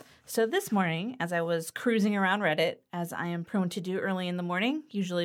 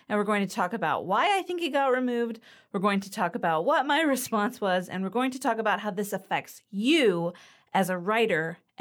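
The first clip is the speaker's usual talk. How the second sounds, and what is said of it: Talking very fast, excited. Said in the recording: “stop talking so fast ... I'm excited”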